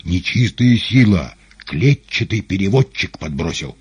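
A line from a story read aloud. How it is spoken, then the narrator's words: Indignant crowd roar. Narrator (Russian): негодующе взревел зал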